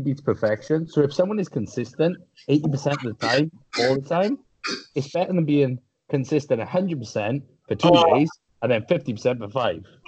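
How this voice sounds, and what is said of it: Welsh accent. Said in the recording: “Your Welsh accent, it sounds so fucking funny.”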